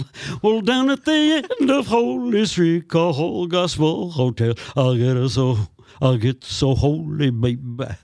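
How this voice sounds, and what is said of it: Elvis-style singing impression. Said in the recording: “I did my impersonation of Elvis Presley singing”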